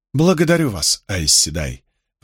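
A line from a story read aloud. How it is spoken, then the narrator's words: Feigned humble tone. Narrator (Russian): произнесла Суан самым смиренным тоном, какой сумела изобразить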